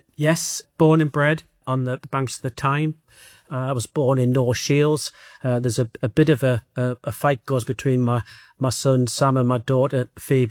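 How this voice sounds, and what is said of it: Geordie English accent. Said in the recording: “I can hear from your accent that you're from that part of the world. A proud Geordie”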